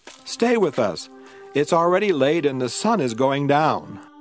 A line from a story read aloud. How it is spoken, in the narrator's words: They begged him